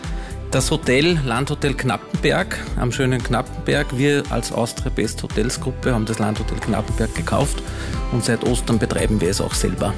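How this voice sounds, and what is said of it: Upper or Lower Austrian dialect. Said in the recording (German): “bei euch hört man schon vom Dialekt her, ihr seid keine Kärntner ... wir sind aus Oberösterreich und aus Niederösterreich”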